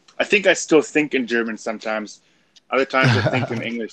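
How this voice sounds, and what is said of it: German accent. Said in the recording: “if I'm more tired, the German comes out in me. If I'm more awake, then you can hear it less. But I think you can generally hear my German accent.”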